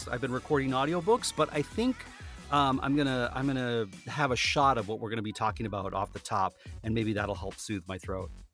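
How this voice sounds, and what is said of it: Slightly hoarse voice. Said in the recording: “My voice is a little bit off. It sounds a little bit hoarse.”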